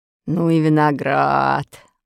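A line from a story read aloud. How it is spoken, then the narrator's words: Muttering. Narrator (Russian): бормотал моряк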